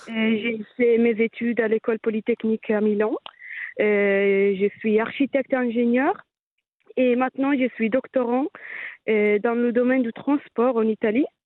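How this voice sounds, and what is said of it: Slight Italian accent in French. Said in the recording (French): “mon petit accent italien”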